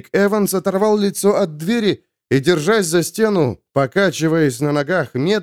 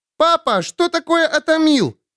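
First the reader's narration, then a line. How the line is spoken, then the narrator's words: Yelling from corridor. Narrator (Russian): вопила в коридоре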